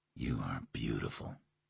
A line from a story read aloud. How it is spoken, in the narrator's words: he breathed